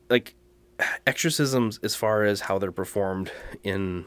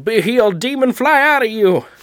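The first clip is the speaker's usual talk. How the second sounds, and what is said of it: Mock Southern American preacher accent. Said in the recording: “Why you always go Southern? ... That's such a fun accent to mock.”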